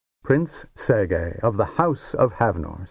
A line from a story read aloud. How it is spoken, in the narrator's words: said the king